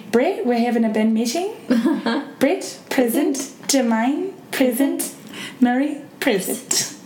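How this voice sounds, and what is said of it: Put-on New Zealand accent. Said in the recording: “The way I always get into a New Zealand accent is ... That's how I get into my New Zealand accent. It's pretty good, right? ... It's good. I like it.”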